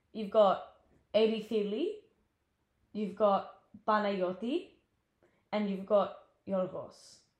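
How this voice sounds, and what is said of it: Names spoken in Greek accent. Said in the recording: “I'm gonna say it with a Greek accent”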